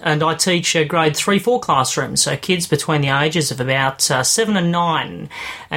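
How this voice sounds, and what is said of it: Australian accent. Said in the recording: “Shepparton, Victoria, Australia, if you can't tell by my accent.”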